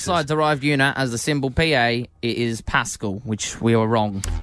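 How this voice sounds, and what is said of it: Put-on English accent, like Russell Brand. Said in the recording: “You know who you sound like, Russell Brand. ... I'm aiming for an English accent. ... I'm really enjoying your English.”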